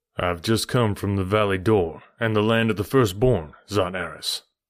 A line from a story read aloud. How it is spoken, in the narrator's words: I replied